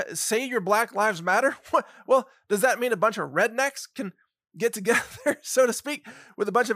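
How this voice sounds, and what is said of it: Usual voice. Nothing is said of it.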